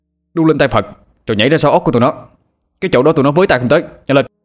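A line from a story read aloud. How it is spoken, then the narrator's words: Almost shouting. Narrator (Vietnamese): Anh nói mà như hét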